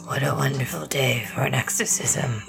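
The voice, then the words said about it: Raspy demon voice from The Exorcist. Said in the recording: “I think I matched my smoker voice by imitating the voice of the demon from The Exorcist.”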